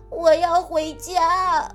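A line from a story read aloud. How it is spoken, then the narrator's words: Crying. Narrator (Chinese): 麦克终于忍不住哭了起来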